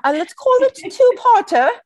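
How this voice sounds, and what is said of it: Put-on British accent, unconvincing. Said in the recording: “That's my British accent... I just wasn't sure if we were in the Hamptons or Nova Scotia.”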